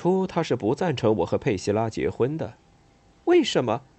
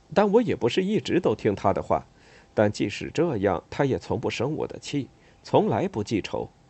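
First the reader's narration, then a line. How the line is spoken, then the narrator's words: Reminiscing, smiling. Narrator (Chinese): 想起往事，他笑了笑，接着说道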